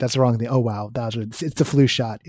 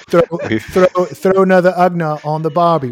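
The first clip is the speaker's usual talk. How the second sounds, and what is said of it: Bad New Zealand accent. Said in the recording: “You need to do that in a bad New Zealand accent, mate.”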